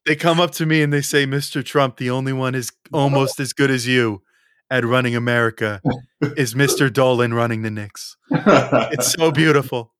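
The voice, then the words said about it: Donald Trump impression. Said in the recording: “a good Trump impression, but that was pretty good... You nailed it.”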